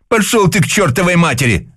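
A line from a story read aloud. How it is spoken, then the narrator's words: Yelling. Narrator (Russian): заорал Жора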